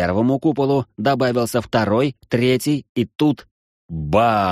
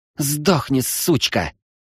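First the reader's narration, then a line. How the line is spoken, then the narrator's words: Hissed. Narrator (Russian): прошипела Анастария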